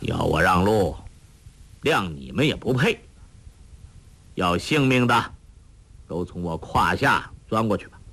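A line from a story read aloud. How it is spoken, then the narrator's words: Flat indifferent. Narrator (Chinese): 黄药师毫不理会，淡淡地说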